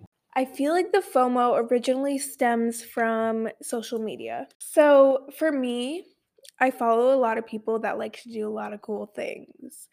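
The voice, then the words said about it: Stuffy, congested voice. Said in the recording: “I don't know why my voice is like this. I think I have allergies... I need to go blow my nose.”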